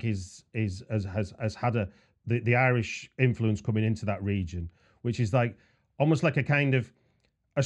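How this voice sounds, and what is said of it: Northwest English accent. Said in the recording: “you can probably tell from my accent, I'm from, oh, maybe not, but I'm from northwest of England”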